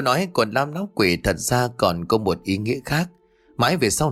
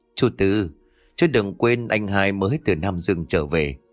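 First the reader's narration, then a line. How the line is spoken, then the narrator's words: Smiling speech. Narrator (Vietnamese): Lão Tam mỉm cười nói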